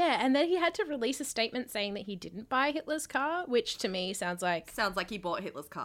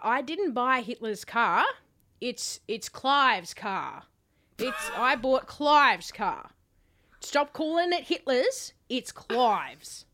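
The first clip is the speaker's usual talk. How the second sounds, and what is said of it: Imitates another person's voice. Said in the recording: “your Clive Palmer impression”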